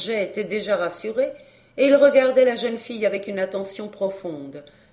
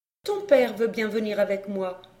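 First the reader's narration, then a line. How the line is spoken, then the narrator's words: Plain. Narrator (French): dit-elle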